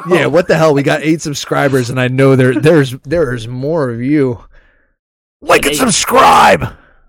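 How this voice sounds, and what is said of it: Imitates another person's voice. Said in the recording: “that was my Nick Merckx impersonation ... he gets all close to the camera”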